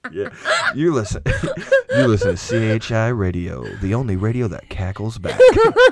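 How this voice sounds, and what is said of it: Slow, smooth radio DJ voice. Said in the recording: “do a radio voice ... just say something like real, just real slow and smooth”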